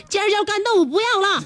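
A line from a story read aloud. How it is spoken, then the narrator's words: Calling out loudly. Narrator (Chinese): 老板对厨房又喊了一声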